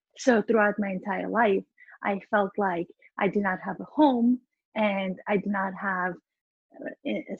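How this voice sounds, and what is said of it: Speaks English with a foreign accent. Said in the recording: “I have an accent in both my native language as well as the English language”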